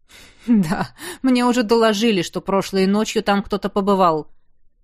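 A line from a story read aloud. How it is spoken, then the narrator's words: King's grunt. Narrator (Russian): хмыкнул его величество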